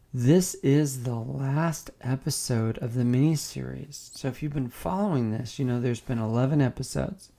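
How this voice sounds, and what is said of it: Unwell, not-normal sounding voice. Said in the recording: “My voice is not what it normally is. I've been sick since December 26th”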